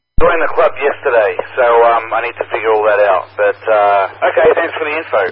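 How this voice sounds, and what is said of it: Mixed British-Australian accent. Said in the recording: “I was born in the UK and raised in Australia, and I've been out here for a while, so I've got a weird accent.”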